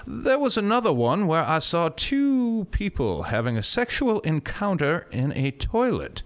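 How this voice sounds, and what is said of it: Poor attempt at English accent. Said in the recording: “Was that an English accent? ... Yeah, it was a really piss-poor attempt at one.”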